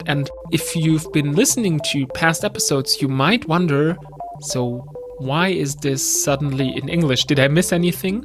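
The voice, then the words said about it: German accent in English. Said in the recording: “I'm from Germany, as you can tell by my accent.”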